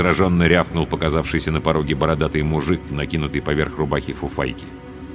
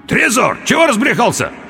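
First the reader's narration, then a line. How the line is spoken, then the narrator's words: Strangled indistinct croak. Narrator (Russian): Я попытался крикнуть ему, но смог выдавить из себя лишь невнятный хрип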